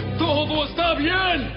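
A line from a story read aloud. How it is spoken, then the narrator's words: Shouting. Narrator (Spanish): Ahimaas le gritó al rey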